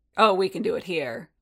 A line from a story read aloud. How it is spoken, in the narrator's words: Boba rumbled